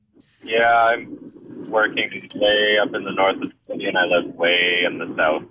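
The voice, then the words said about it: Low, down, sad-sounding tone. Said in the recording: “What's with the down tone here? ... You sound sad ... doing an impression of Eeyore”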